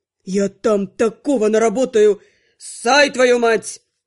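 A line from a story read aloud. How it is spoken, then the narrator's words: Growl. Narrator (Russian): рыкнул Анхайлик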